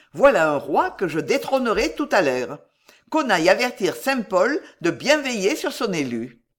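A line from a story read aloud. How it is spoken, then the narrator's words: Exclaimed. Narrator (French): s'écria-t-il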